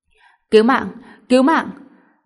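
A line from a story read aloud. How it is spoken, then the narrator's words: Terrified scream. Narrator (Vietnamese): Một tiếng hét kinh hoàng la lên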